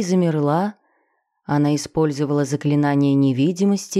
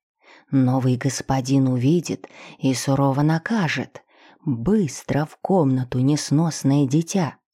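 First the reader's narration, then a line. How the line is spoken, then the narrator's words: Stout woman's failed whisper. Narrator (Russian): Дородная женщина старалась шептать, но выходила откровенно плохо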